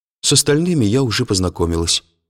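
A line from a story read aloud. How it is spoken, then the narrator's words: Plain. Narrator (Russian): сказала Мария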